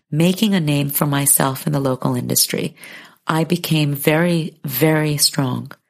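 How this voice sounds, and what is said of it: American accent. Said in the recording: “I was the only Chinese face with an American accent”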